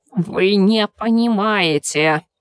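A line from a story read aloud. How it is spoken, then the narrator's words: Creaky creature voice. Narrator (Russian): проскрипело одно из существ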